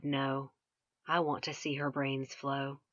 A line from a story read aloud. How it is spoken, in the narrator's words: Krista coolly replied